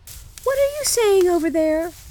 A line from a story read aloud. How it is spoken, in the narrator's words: cried Gerda